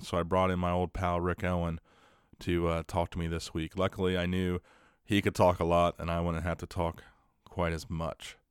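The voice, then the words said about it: Sick, flu-affected voice. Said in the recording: “my voice sounds a little bit different this week, maybe even a little bit more sexy ... It's called the flu.”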